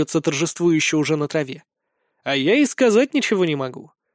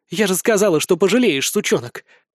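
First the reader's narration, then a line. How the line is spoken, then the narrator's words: Exclaiming. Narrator (Russian): воскликнула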